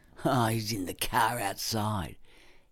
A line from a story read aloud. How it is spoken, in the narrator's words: sneered